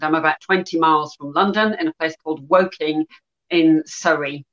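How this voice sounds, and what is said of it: Northern English Yorkshire accent. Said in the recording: “you have a bit of an accent ... I'm originally from Yorkshire in the north of England”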